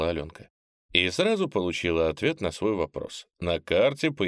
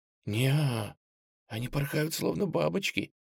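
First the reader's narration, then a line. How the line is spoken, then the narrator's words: Muffled whisper. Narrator (Russian): все так же прошептала Аленка, для надежности прикрыв рот ладонью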